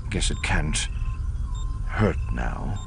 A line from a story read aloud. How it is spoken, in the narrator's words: Himron murmured